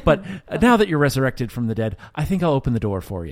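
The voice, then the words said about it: Put-on Irish accent. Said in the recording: “I don't know why he has an Irish accent”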